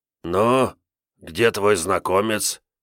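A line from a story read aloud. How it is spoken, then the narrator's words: Displeased hoarse wheeze. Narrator (Russian): недовольно просипел Дармидон Теович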